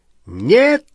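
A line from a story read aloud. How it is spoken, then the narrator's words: Shout. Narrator (Russian): крикнул Малфой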